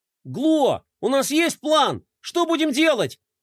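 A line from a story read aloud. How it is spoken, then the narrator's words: Shouting. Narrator (Russian): закричал Флай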